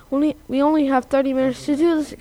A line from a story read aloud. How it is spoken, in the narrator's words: exclaimed Hunter